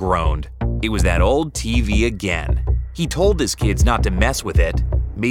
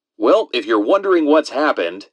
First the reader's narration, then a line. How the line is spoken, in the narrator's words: laughed, shifting uncomfortably in his chair